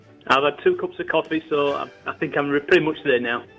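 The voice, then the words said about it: Yorkshire English accent. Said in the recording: “That isn't a traditional Cork accent. ... It's a little known place called Yorkshire.”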